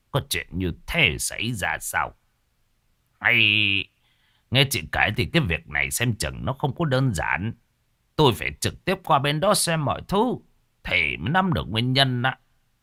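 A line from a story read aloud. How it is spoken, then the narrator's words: Worried muttering. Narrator (Vietnamese): Thầy hai đôi lông mày của ông nhíu chặt lại lẩm bẩm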